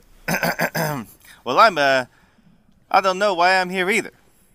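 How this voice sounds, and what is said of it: Put-on Brooklyn accent. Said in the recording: “I don't know why he just got a Brooklyn accent.”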